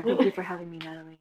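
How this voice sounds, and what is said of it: Soft, sensual NPR-style voice. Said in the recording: “my NPR voice ... a whole new level of sensuality ... That may have been too soft.”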